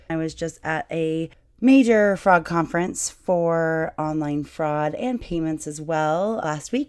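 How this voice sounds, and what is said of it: Rough, partly lost voice. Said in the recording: “my voice is a little bit different ... talking for about 18 hours a day, the dry air, and your voice will sound like this ... I lost my voice”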